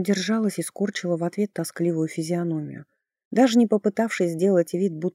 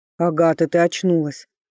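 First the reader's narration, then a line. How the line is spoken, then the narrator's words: Ecstatic roar. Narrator (Russian): Восторженно взревел он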